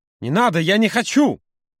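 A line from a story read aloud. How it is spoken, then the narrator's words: Furious exclamation. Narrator (Russian): Яростно воскликнул Юра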